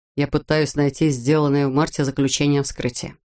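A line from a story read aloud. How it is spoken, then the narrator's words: Plain. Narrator (Russian): сказал Брейс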